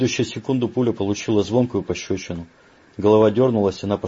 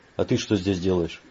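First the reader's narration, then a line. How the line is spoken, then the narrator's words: Affectionate question. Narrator (Russian): ласково поинтересовался незваный гость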